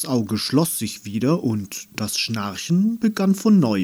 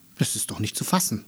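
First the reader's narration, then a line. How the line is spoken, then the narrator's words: Murmur. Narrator (German): murmelte Andi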